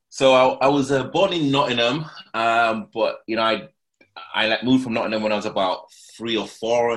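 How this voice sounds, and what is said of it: Rough northern English accent, slight twang. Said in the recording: “kind of more of that kind of northern, that kind of rough northern accent ... I've got a bit of a twang ... a lot of people either say Birmingham or Manchester”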